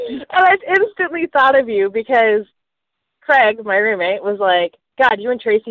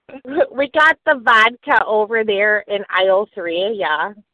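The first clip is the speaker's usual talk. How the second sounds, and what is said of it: Playful put-on Minnesota accent. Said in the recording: “We are supposed to do accents... I have a Minnesota accent because I was messing with him and I kept going, oh, yeah. Oh, yeah.”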